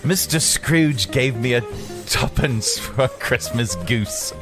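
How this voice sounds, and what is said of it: Put-on British accent. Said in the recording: “Top things you can only say in a British accent.”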